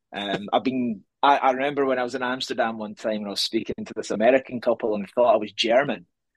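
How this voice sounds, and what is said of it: Scottish accent. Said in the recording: “if you couldn't tell by his accent ... I'm Scottish”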